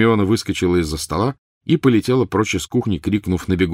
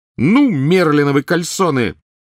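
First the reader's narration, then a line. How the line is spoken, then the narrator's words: Sudden loud shriek. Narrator (Russian): Вдруг завизжала она с такой силой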